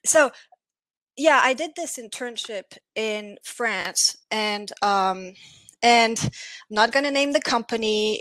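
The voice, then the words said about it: Noticeable foreign accent in English. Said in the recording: “That's the weird accent. ... It's a lovely accent.”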